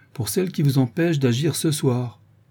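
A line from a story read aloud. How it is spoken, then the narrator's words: Sneering bandit. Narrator (French): dit le brigand en ricanant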